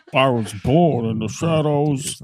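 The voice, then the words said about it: Bane impression. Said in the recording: “That's Bane.”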